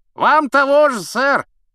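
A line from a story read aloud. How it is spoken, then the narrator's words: Knight shouting. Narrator (Russian): крикнул рыцарь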